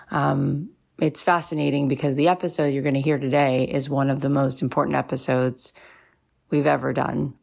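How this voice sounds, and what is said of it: Scratchy voice. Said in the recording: “my voice sounds a little scratchy ... there's been a lot of big tears”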